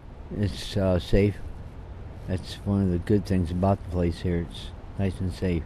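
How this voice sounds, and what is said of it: Older man's voice. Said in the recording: “was an older gentleman, as you can hear by his voice.”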